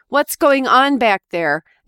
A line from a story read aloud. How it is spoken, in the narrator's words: My husband yelled